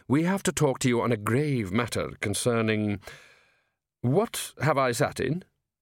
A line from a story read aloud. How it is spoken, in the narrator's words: Downey firmly